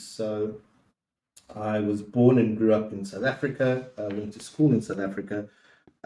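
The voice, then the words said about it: South African accent. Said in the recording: “So I am South African. You'll pick up by the accent.”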